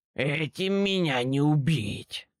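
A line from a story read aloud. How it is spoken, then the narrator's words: Hoarse creature's croak. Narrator (Russian): прохрипела противная тварь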